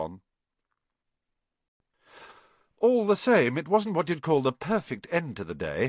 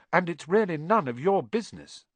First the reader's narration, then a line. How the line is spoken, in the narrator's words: said Harry